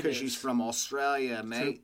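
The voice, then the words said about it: Put-on Australian accent. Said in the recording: “You have to make an Australian accent?”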